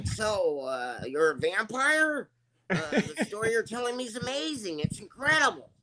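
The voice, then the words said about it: Christian Slater impression. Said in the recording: “I did a Christian Slater impression”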